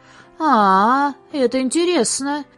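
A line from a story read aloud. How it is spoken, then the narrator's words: Drawling. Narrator (Russian): протянул режиссер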